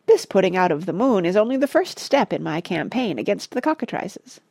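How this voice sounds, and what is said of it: High piping imitated voice. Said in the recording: “in a remarkable imitation of H.H.'s piping voice”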